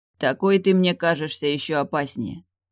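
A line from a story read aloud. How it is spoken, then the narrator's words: Gloomy pronouncement. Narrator (Russian): мрачно изрек Явор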